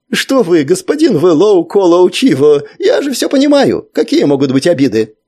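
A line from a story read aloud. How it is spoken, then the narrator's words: Relieved, habitually apologetic. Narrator (Russian): Носок радостно заулыбался, поняв, что опасности нет, но по привычке продолжал оправдываться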